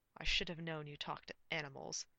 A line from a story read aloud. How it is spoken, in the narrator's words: he grumbled